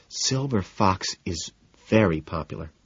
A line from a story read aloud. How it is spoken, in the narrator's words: Daisy murmurs